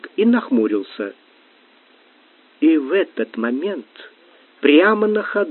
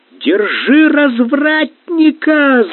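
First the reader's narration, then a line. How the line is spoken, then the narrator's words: Shrieking, kitchen-style. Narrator (Russian): завопила она по кухонному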